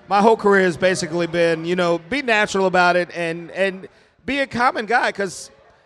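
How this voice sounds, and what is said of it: Usual voice. Nothing is said of it.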